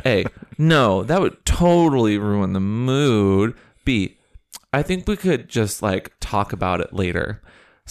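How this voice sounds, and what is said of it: Put-on teenage voice. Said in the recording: “I'll read this in my best like teenage voice.”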